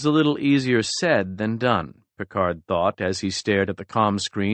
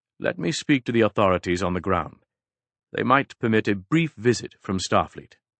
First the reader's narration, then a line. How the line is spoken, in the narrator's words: Picard said calmly